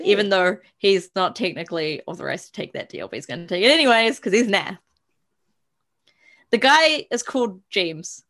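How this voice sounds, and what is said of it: Noticeable accent, vowels sound unusual. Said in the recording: “for those of you that are confused by ... accent, it's not James. It's literally J-E-E-M-S.”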